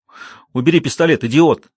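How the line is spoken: Shouted. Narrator (Russian): крикнул Расти Чифу

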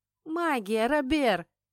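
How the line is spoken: Exclaiming. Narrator (Russian): воскликнула

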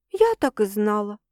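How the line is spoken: Sad sigh. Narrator (Russian): печально вздыхаю

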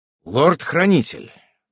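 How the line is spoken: Solemn. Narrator (Russian): торжественно произнес я

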